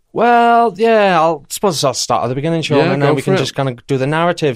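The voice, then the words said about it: South Wales Valleys accent. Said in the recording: “you've got a bit of an accent ... I'm from the Valley, South Wales, Merthyr Tydfil.”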